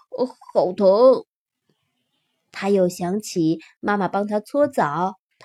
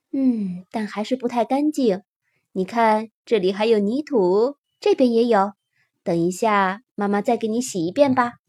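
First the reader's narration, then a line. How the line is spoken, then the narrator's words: Mother, admiring. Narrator (Chinese): 妈妈赞叹道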